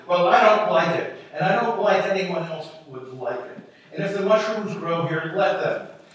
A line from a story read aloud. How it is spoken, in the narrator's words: she spoke firmly and loudly